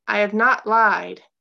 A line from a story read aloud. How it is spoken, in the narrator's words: Gabe called out, his voice stronger